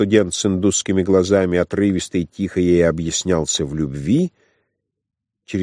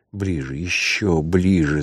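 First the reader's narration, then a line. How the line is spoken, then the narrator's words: Muttering. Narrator (Russian): забормотала она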